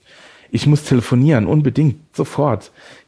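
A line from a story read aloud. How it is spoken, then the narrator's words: Gasping. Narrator (German): japste Raphael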